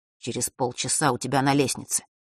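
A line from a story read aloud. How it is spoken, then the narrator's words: Quick whisper. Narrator (Russian): Фэш быстро прошептал Василисе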